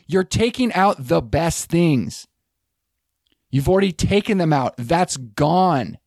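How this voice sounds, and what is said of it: Agitated, riled-up voice. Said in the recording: “my voice is getting riled up”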